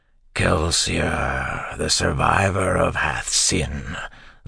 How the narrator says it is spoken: the creature said in a grinding voice

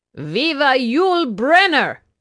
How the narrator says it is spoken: she hollered back

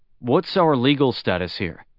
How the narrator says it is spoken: Luo Ji asked

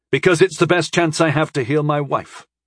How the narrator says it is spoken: I barked

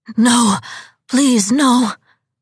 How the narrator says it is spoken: gasped the hunter

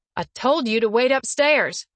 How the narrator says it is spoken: Laurelin yells at Brandy

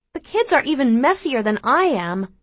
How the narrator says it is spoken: I exclaim

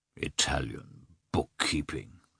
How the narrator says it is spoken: said the landowner scornfully

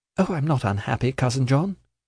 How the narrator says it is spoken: said Ada, smiling cheerfully

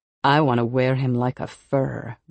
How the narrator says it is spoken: the cougar woman purrs

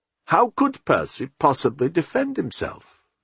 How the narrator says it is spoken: Remigius said testily

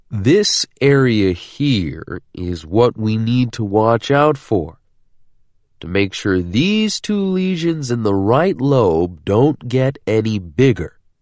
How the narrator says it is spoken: he said, speaking so slowly and loudly that it was almost insulting

